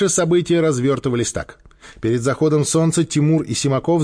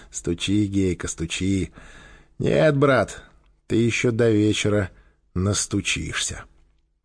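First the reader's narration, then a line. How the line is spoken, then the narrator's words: Indifferent mutter. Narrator (Russian): Квакин обернулся и равнодушно пробормотал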